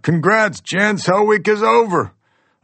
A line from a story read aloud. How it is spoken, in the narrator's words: the instructors yelling out